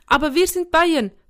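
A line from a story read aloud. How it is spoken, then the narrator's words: Calling out. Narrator (German): rief Jafet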